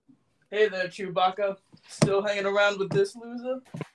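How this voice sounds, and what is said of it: Impression of film character Lando. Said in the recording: “impersonation... I'd opt for a Lando”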